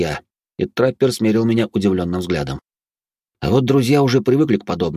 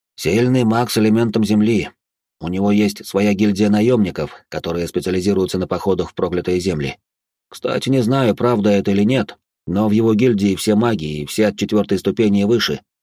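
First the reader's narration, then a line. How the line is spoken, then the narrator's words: Plain. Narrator (Russian): ответил Деоламик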